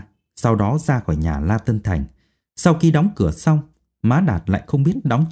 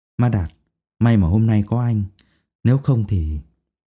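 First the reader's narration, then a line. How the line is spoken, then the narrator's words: Sighing. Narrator (Vietnamese): Dung Nhan thở dài nói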